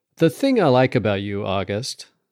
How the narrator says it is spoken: said Gretchen

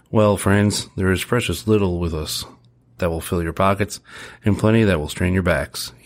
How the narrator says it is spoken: chuckled again

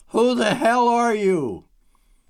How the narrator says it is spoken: she managed to yell

